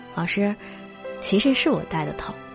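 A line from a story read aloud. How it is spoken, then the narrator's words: Laughing. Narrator (Chinese): 他哈哈一笑，然后对老师说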